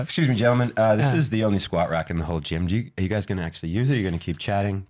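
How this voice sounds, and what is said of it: American accent. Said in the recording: “his American accent”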